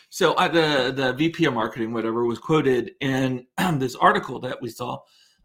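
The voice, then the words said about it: Voice going, hoarse. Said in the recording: “I don't know why my voice is going.”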